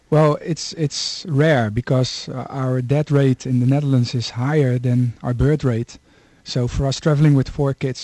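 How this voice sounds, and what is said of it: Dutch accent. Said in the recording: “Now they'll get used to a Dutch accent”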